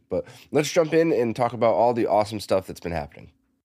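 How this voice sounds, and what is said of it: Congested voice from a cold. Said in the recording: “I have a pretty nasty cold, so I'm sorry if my voice is more annoying than usual this week.”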